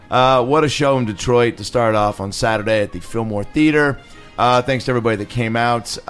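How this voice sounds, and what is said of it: Slightly hoarse, worn voice. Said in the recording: “My voice is already a little shot”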